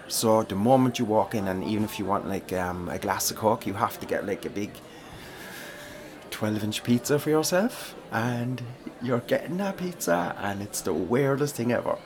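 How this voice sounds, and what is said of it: Thick accent, fast speech. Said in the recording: “I'm not talking too fast for you, am I? ... And my accent isn't a little too thick, no? ... some think I talk too fast”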